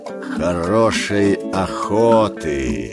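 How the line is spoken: Short hiss. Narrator (Russian): По обыкновению коротко прошипел Каа

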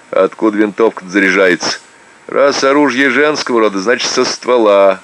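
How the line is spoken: Laughing. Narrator (Russian): рассмеялась Люба

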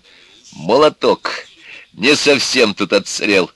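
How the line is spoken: Joyful. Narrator (Russian): сказал радостно

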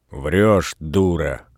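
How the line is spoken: Grumbling. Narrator (Russian): ворчал Передонов

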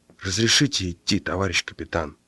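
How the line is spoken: Very quiet. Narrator (Russian): очень тихо сказал Ленька

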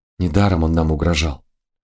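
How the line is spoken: Quiet. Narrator (Russian): тихо сказала

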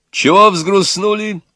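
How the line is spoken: Cheerful and loud. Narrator (Russian): Весело и громко сказал Егор

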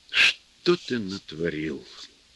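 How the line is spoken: Sad question. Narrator (Russian): печально спросил его режиссер

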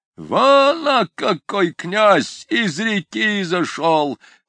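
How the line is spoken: Shouting. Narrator (Russian): кричал круглый барин

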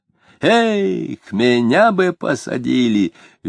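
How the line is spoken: Cheerful. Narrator (Russian): весело сказал он

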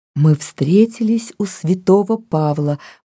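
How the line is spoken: Whisper. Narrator (Russian): прошептал Мартин

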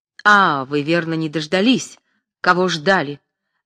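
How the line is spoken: Heated young man's exclamation. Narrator (Russian): запальчиво воскликнул молодой человек

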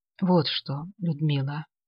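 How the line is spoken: Quiet. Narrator (Russian): сказал он тихо

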